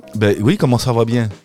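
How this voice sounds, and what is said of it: Norman French accent. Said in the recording (French): “l'accent normand... Ah bah j'ai l'accent normand... Ça, c'est l'accent normand, ça ?”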